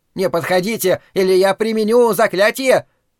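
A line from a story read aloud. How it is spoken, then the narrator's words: Shrill squeal. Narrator (Russian): раздался визгливый голос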